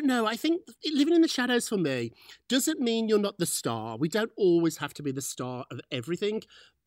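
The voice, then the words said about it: British accent. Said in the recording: “it's the British accent.”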